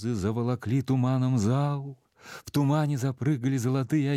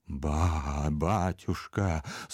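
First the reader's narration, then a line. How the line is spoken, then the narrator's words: Convulsive whisper. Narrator (Russian): судорожно прошептал Иона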